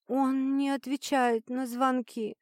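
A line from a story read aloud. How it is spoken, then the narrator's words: Funereal confession. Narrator (Russian): призналась Ангелина похоронным тоном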